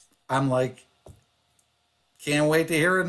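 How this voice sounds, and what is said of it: Usual voice. Nothing is said of it.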